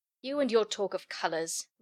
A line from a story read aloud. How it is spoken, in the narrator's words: Ring grumbled